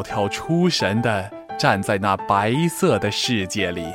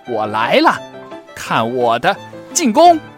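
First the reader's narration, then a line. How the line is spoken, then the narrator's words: Playful laughing and screaming. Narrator (Chinese): 两个好朋友尽情的笑着，尖叫着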